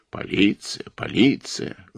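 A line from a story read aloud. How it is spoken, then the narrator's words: Woman grumbling. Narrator (Russian): ворчала Франсуаза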